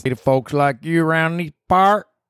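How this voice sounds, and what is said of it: Put-on Southern accent. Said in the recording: “Does it sound cool if I say it like that? ... It's just a stupid Southern accent.”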